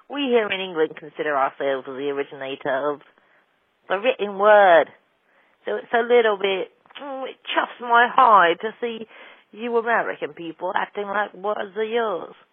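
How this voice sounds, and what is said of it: Put-on British accent. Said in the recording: “Hello, I'm British, in case you couldn't tell from my accent.”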